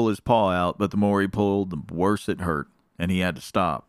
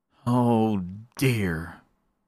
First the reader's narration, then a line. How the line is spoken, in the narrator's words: sighed Mr